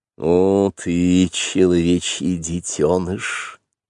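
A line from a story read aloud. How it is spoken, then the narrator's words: Very tender panther voice. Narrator (Russian): сказала черная пантера очень нежно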